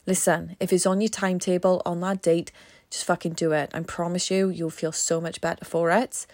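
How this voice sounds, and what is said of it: Strained, tired voice. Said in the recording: “my voice is strained”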